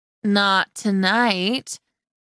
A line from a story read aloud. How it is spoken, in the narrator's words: one of them replied slowly